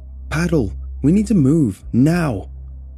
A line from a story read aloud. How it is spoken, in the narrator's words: I shout